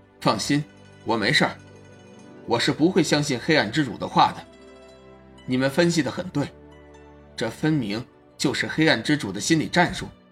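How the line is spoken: Light smile. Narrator (Chinese): 龙宇微微一笑

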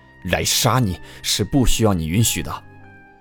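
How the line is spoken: Low growl. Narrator (Chinese): 低声吼道

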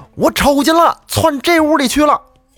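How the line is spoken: Repeated shouting. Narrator (Chinese): 有人跟那儿连声的叫喊，说

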